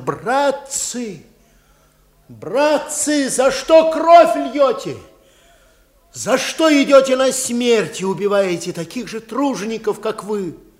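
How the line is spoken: Fearful, breaking shout. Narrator (Russian): Петька, чувствуя, как холодеют его пальцы, а тело покрывается липким потом, выкрикнул рвущимся голосом

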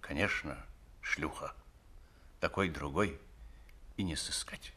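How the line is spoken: Old man muttering. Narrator (Russian): Старик бормоча

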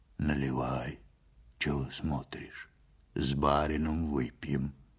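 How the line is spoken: Low, husky voice. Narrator (Russian): сказал Ваньке глухим, с хрипотцой голосом

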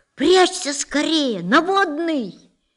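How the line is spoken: Several voices shouting below. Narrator (Russian): внизу несколько голосов разом закричали

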